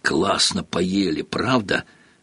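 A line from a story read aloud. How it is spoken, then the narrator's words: Muffled mumbling behind curtains. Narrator (Russian): донеслось до Гарри бормотание Рона, скрытого от него тяжелыми шторами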